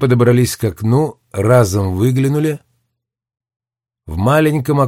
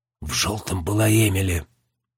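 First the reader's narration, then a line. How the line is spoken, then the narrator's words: Mutter. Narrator (Russian): пробормотала Дженни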